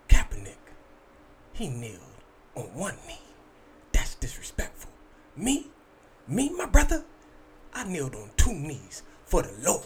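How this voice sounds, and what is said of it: Imitates another person's voice. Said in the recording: “my Ray Lewis impression. Sorry. It's not that good.”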